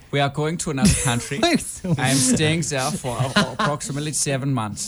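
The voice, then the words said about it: Put-on calm German accent. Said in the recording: “Your German accent is more propaganda ... Very calm ... Mine is probably not very accurate ... No, not at all”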